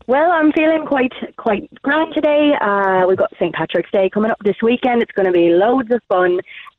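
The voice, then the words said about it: Put-on Irish accent. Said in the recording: “Your accent's way better than mine. I think the listeners do way better in Irish accents”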